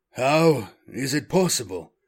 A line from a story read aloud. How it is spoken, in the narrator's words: Magron breathed